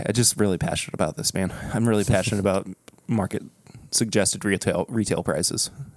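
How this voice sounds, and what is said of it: Choked-up, emotional voice. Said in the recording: “getting a little choked up.”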